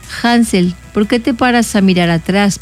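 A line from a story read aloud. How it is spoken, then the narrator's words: Plain question. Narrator (Spanish): preguntó el padre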